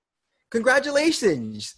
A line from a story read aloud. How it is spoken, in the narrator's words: yelled through her mask